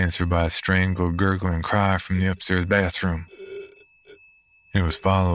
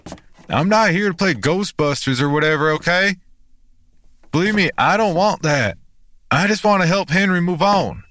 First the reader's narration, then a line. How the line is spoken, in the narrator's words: I called out